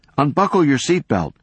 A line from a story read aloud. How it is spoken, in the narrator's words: he yelled